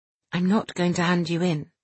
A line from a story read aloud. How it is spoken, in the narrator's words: I said as gently as I could